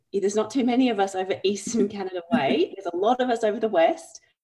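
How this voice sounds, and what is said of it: Australian accent. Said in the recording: “this accent is dissimilar to some of the accents ... I am from Australia”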